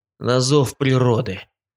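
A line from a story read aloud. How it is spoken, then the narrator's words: Muttered over shoulder. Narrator (Russian): Буркнул я через плечо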